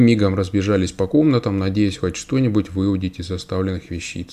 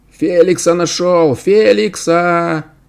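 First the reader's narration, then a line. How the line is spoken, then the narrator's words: Shouting orphan child. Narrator (Russian): кричал сирота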